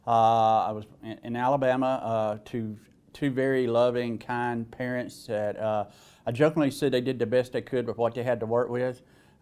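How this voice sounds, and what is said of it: Southern US accent. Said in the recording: “as you could probably tell by my accent, I was born in the South”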